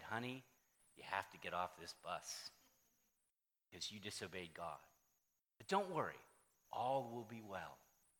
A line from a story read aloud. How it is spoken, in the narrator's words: An old woman ... said